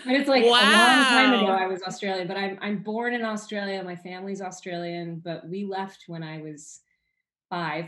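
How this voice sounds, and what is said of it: American accent. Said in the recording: “I just picked up this American accent, and it stuck”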